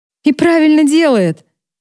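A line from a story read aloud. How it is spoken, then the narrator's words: Man laughing. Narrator (Russian): рассмеялся один из мужчин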